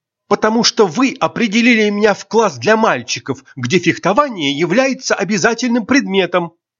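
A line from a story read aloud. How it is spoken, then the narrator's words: Almost shouting. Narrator (Russian): Айрин почти кричала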